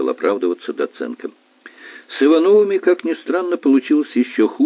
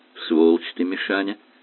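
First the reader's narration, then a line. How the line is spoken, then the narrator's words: Grim concluding tone. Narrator (Russian): Мрачным тоном сделал вывод Зарубин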